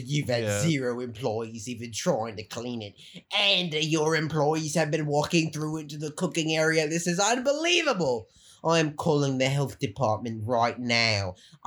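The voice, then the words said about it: Put-on Californian accent. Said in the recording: “That was good. That is California accent.”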